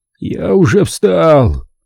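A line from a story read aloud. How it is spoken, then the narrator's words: Groan. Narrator (Russian): простонал Уокер, надеясь, что Дженкинс уйдет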